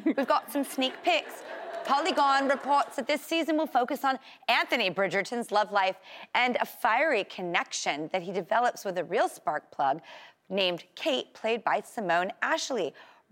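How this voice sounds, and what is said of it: Put-on English accent. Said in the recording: “I can't speak English, but I can do an English accent.”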